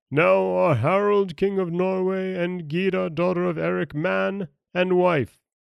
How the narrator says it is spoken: Eric called out loudly

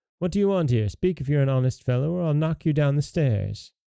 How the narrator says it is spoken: The youth called out the second time

